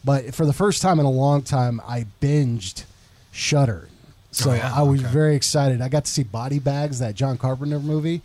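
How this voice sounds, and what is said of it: Slightly sick-sounding voice. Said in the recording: “I got sick this past weekend, and you still kind of hear it in my voice.”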